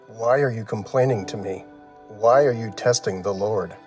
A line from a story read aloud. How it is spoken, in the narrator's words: they grumbled against Moses